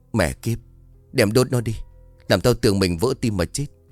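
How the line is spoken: Panting, trembling. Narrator (Vietnamese): hồn hển đứng dậy run rẩy bảo

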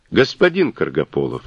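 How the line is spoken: Calm. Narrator (Russian): спокойно начал он

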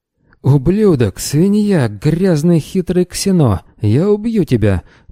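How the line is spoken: Moaning. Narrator (Russian): простонал Долгоров

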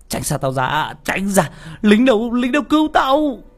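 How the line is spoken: Terrified scream. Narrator (Vietnamese): hắn vừa sợ hãi hét lên

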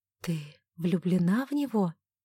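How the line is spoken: Quiet question. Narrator (Russian): Оливия тихо спросила

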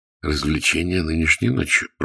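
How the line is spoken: Muttering to himself. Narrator (Russian): пробормотал про себя Мержи

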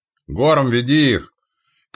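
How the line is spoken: Shouting, powerful knight. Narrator (Russian): крикнул, восседая на коне могучего телосложения рыцарь

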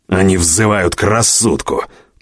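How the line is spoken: Growling. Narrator (Russian): прорычал Корман

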